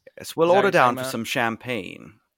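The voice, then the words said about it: Put-on old-movie Transatlantic accent. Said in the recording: “The British? Transatlantic accent like they did in movies in the 50s, where it's like, what are they American?”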